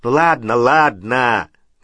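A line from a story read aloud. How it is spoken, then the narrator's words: Barked loudly. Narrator (Russian): гаркнул Вернон Дурсль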